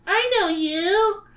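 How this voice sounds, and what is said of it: Whiny character voice. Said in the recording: “A whiny voice”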